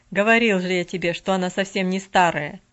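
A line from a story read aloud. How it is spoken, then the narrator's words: Laughing. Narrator (Russian): Нэнси засмеялась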